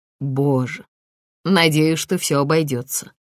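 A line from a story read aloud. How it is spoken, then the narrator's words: Gloomy inner thought. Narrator (Russian): мрачно подумал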